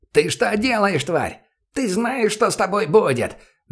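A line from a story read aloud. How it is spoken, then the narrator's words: Reflexive yell. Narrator (Russian): На автомате заорал он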